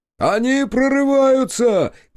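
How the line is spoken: Shouting. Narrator (Russian): крикнул Федот

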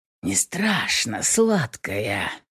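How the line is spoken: Furtive hoarse rasp. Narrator (Russian): Прохрипел я тайком

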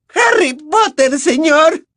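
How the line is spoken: Trembling elf's shriek. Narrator (Spanish): chilló el elfo, que temblaba de pies a cabeza

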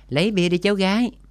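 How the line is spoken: Loud call. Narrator (Vietnamese): Gã hét to gọi cô bé phục vụ

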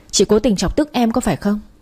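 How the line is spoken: Hissing, angry. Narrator (Vietnamese): chị Hà rít lên

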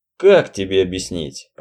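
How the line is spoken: Sighing. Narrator (Russian): Роджер вздохнул

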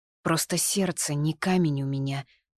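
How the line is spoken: Whispered, head lowered. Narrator (Russian): прошептала я, опуская голову

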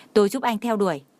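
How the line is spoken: Angry. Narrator (Vietnamese): Trang Hạo Nhiên tức giận nói

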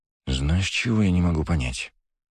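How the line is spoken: Quiet. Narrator (Russian): тихо произнес Потехин

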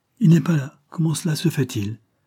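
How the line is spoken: Exclaimed. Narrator (French): s'écria-t-elle

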